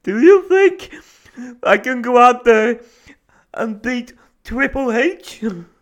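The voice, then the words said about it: Crying imitation of another person's voice. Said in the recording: “Ric Flair crying. ... best Ric Flair impression I've ever done, but still bad.”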